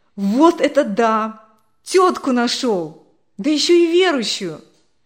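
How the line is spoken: Sudden loud laughter. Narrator (Russian): Он вдруг громко засмеялся

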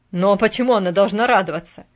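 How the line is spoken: Barked. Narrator (Russian): рявкнул Джон Пендлтон

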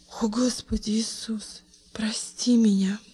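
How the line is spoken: Sudden whisper. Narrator (Russian): прошептала она вдруг

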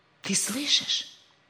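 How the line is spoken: Excited whisper. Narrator (Russian): возбужденно прошептал Рик

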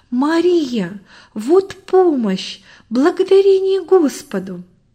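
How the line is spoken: Joyful exclamation. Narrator (Russian): Добрый в порыве радости воскликнул

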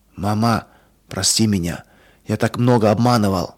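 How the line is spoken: Whispered. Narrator (Russian): он прошептал

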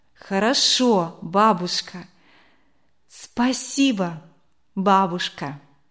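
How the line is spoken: Tender repetition in learned Russian. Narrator (Russian): Руфь улыбалась ей и ласково повторяла выученное по-русски

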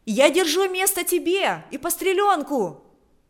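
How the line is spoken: Shouting. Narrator (Russian): кричала она

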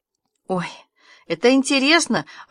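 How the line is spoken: Lively exclamation. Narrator (Russian): оживленно воскликнула Аня

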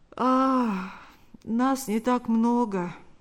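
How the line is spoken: Slightly sleepy. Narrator (Russian): ответил тот немного сонным голосом

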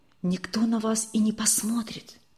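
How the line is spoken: Whisper. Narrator (Russian): все так же шепотом ответил незнакомый

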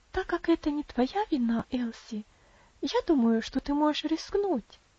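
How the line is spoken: Gentle, kind. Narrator (Russian): ласково сказала Роза

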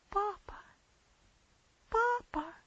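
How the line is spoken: Sobbing. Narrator (Russian): всхлипывала она

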